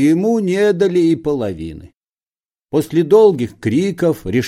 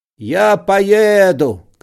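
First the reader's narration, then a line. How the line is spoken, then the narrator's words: Shouting man. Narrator (Russian): кричал он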